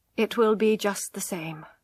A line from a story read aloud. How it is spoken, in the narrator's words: he answered kindly